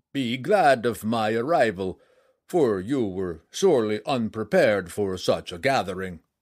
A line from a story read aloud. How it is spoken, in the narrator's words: he said with a hearty laugh